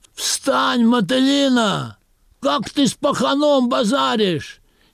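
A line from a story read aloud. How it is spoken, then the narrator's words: Shout from the audience. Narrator (Russian): Из зала крикнули еще раз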